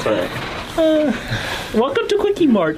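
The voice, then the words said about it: Bad Indian accent impression of Apu. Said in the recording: “that impression ... I am Apu. It's like the worst Indian accent”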